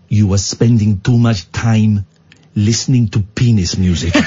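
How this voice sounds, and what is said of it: Put-on Polish accent. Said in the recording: “I won't do the accent, but it's Polish. I will do the accent.”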